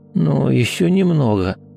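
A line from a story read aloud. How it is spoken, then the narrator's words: Mumble. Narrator (Russian): пробормотал Рома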